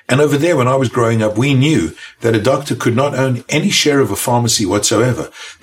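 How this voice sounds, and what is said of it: South African accent. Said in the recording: “I was born in South Africa, as you can tell from my accent”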